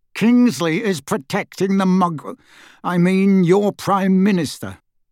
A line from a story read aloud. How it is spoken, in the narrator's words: he said through gritted teeth